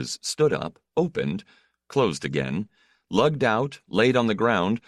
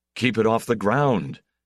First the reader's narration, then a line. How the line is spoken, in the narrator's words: Casimir said in a sharp voice